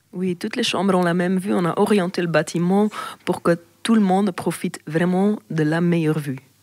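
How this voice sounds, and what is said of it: Charming accent. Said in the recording (French): “a vraiment un accent charmant”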